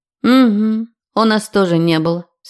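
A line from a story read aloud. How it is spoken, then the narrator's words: Skeptical grumble. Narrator (Russian): скептично проворчала она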